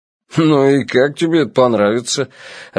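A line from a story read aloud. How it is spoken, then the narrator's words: Laughing. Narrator (Russian): рассмеялся Стуна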